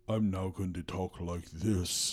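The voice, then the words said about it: Lowered, intense put-on voice. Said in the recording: “I'm going to try to lower my voice so that I sound older and more intense.”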